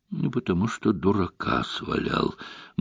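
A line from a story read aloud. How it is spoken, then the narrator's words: Gloomy admission. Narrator (Russian): мрачно признался доктор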